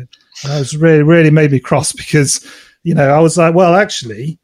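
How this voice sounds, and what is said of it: Manchester English accent. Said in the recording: “heard my accent ... I'm from Manchester in the UK”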